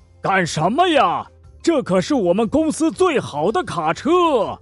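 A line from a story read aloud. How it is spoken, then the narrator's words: Furious yelling. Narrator (Chinese): 卡车司机火冒三丈，扯着嗓子朝强强大吼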